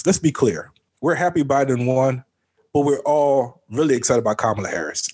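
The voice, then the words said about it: Imitates another person's voice. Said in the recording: “in my Bernie Sanders voice.”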